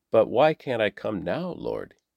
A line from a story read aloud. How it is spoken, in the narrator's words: he asked